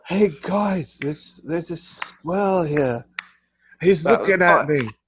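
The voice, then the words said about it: Poor attempt at British accent. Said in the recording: “That is not a British accent.”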